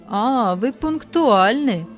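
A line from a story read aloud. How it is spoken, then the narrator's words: Mocking. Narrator (Russian): сказал муж насмешливо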